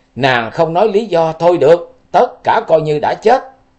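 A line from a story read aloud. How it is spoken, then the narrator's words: Howling to the sky. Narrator (Vietnamese): Liễu Kiệt gào lên với trời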